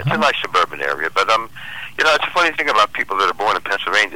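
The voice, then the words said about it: Pennsylvania regional accent. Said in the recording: “I can tell that accent anywhere.”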